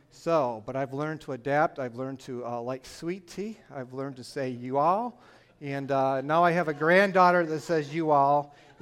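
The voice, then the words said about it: Northern US Michigan accent. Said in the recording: “my northern accent, I am from Michigan”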